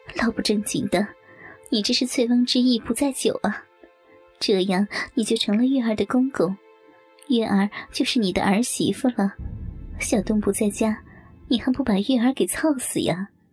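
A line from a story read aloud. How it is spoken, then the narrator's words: Laughing scolding. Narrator (Chinese): 冷淑芬笑骂道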